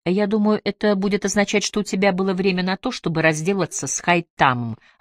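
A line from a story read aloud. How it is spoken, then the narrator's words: Plain. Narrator (Russian): ответила Рэйчел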